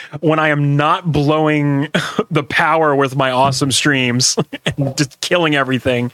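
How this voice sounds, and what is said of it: Usual voice. Nothing is said of it.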